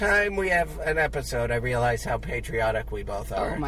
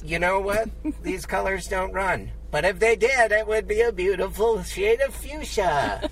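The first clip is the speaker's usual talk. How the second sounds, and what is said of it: Slightly raised pitch, gay patriot impression. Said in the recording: “my impression of a gay patriot ... your voice stayed kind of the same. You went up a little bit.”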